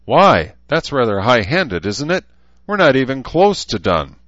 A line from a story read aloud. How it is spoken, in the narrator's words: Deschert snapped